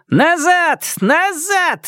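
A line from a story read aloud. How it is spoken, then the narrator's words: Shouting. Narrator (Russian): закричала Аня на остальных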